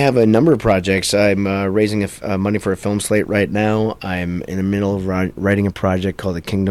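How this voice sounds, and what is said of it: Usual voice. Nothing is said of it.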